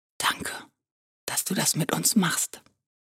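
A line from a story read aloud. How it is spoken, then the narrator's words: Soft, hiding sadness. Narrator (German): sagte sie leise, um nicht zu zeigen, wie traurig auch sie gerade wurde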